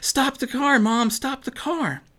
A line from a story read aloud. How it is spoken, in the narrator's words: Maddie cried out